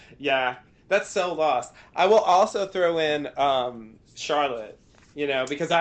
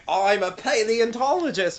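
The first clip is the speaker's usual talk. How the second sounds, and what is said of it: Australian accent imitating a character. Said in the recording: “Mate, that's Australian. ... Was a really good Australian.”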